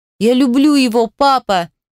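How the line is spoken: Tearful shouting. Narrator (Russian): кричала Вера прямо в лицо Ефиму Николаевичу, а по лицу градом лились слезы

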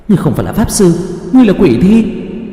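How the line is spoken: Wounded panicked cry. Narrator (Vietnamese): phun ra một ngụm máu, thất thanh kêu lên

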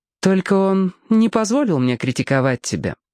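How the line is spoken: Dry. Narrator (Russian): сухо добавила она

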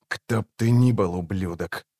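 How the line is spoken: Whisper. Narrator (Russian): прошептал он

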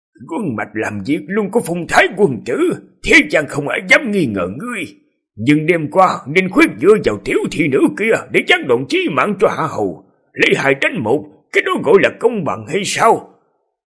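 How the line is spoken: Hoarse old voice. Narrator (Vietnamese): Hứa Thế với gương mặt đầy nếp nhăn, giọng khàn khàn

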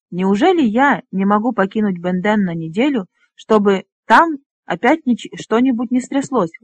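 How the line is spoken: Exclaimed in mock despair. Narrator (Russian): воскликнул Фнор с притворным отчаянием

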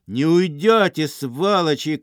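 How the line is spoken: Shouting from boat. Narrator (Russian): кричали из барки

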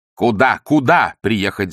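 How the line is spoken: Shouting. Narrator (Russian): закричал Остап

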